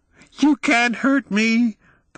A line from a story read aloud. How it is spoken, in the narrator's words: the boy shrieked